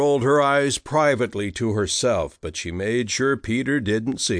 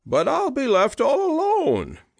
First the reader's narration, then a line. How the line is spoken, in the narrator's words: wailed